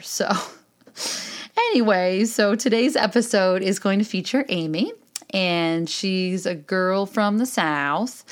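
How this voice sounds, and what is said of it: Upstate New York accent. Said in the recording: “accent than I do from upstate New York, which is actually a rather obnoxious accent,”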